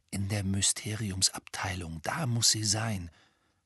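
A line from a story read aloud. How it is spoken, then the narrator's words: Whispered. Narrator (German): flüsterte Harry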